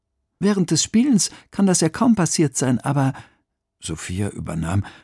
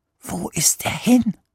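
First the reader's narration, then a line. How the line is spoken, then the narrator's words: Whispering. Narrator (German): flüsterte Emil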